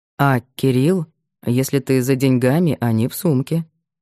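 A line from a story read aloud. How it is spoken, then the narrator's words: Calm, slightly slow. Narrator (Russian): Макар говорил спокойно, разве что чуть медленнее обычного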